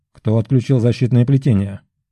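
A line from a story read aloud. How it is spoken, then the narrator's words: Cold question. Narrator (Russian): Холодно поинтересовался маг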